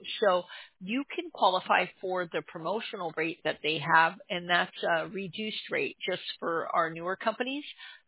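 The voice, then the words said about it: Hoarse voice, prone to cracking. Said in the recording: “my voice, I'm losing my voice, so I'm sorry if I crack on you”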